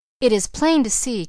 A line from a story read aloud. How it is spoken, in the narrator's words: cried Edith Carr